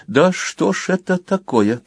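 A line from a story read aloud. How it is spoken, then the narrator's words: Muttered. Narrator (Russian): пробормотал Талия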